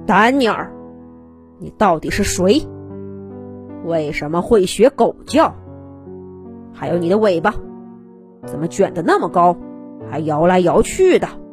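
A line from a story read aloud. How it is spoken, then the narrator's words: Stern, harsh voice. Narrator (Chinese): 厉声说道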